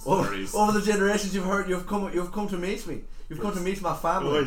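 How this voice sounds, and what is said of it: Put-on Irish accent. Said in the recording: “it's been Irish. It's better than nothing... do that accent”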